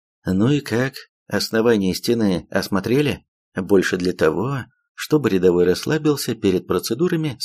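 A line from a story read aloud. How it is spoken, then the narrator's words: Plain. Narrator (Russian): спросил я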